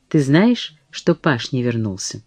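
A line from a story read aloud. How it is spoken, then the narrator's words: Soft. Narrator (Russian): Сара мягко сказала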